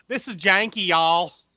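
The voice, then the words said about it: Thick put-on Southern accent. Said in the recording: “have a thick southern accent.”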